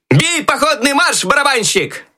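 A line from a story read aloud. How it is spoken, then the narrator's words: Loud shout. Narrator (Russian): Громко крикнул Щелкунчик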